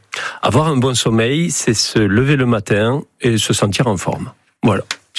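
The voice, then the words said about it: Slight southern French accent. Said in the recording (French): “il y a un petit accent là. ... Léger. ... Vous venez du Sud?”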